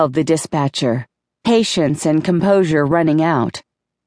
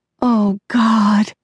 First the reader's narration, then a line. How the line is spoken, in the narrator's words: I held my face in my hands and moaned